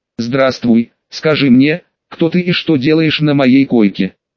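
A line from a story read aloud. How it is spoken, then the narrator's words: Stern question. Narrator (Russian): строго спросил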